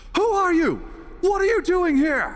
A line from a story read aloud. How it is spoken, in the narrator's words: she screams